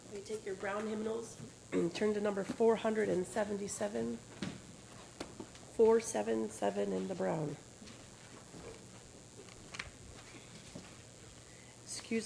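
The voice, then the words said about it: Strained, failing voice. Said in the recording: “excuse my voice... My voice may fail me this morning”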